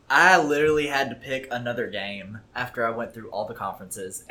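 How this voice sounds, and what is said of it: Screaming, loud clipping voice. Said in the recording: “I am very sorry that I'm screaming... Probably red line... Way in the clip in there.”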